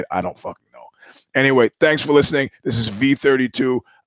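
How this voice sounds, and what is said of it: Strained, poor-sounding voice. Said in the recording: “My voice is terrible.”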